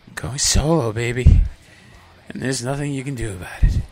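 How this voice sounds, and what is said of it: Deliberately odd, cold-like put-on voice. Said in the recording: “in this voice. Why? Do I have a cold? Absolutely not. ... I've just chosen this voice for no reason”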